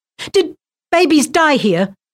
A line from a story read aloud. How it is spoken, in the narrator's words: she blurted out